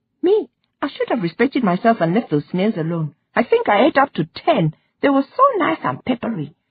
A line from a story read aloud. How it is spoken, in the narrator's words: she said, and added, giggling